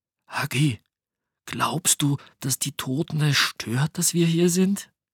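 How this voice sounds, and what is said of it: Whispered voice. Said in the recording (German): “mit flüsternder Stimme”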